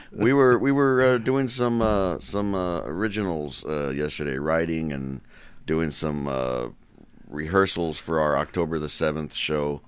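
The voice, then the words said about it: Limp, sluggish, worn-out sounding voice. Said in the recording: “You sound a little hungover ... Do I sound a little loose right now? ... You sound like a soft, wet tea bag right now.”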